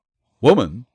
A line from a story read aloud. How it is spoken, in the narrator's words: questioned Mallory quickly